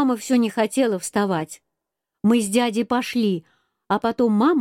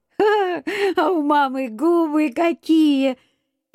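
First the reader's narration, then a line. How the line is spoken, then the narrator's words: Laughing. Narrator (Russian): Я засмеялся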